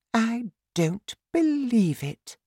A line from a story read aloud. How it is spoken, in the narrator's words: the Queen said quietly